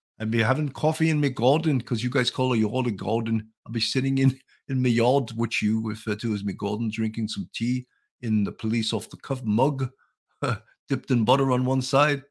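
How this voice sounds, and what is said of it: Poor put-on English accent. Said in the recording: “I try to do my English accent, which is horrible ... I have a worse English accent, so I shouldn't even try.”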